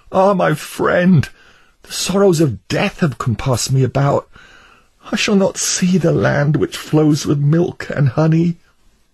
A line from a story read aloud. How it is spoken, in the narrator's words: Christian then cried out